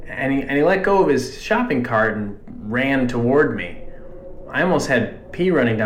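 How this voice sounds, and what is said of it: Usual voice. Nothing is said of it.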